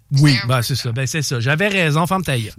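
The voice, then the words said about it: Odd put-on English accent in French. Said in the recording (French): “c'est quoi cet accent-là bizarre? ... C'est comme un accent d'une anglaise. ... Spécial.”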